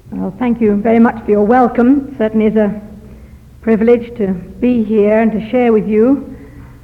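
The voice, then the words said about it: Southern English accent. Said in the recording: “I don't come from this side of the water... London in England... catch my accent... We talk a lot faster in the southern England”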